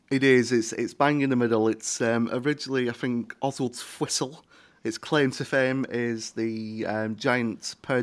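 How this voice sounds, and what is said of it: East Lancashire English accent. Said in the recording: “your accent ... a little town in East Lancashire”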